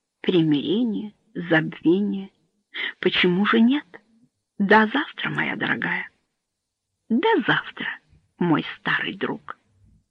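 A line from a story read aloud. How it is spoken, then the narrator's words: Whisper with forced smile. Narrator (Russian): Сенатор с вымученной улыбкой прошептал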